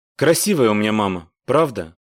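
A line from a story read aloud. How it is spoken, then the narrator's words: Sad, smiling voice. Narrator (Russian): грустно улыбнулся Вик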